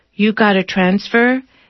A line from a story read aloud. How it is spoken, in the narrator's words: she asks in a monotone